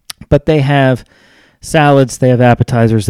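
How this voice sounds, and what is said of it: Usual voice. Nothing is said of it.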